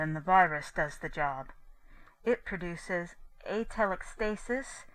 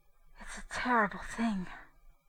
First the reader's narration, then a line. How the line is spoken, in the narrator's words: Mary said faintly